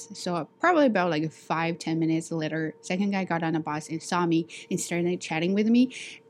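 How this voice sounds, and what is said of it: Strong non-native English accent. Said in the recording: “You have a very strong accent. Your pronunciation is not good.”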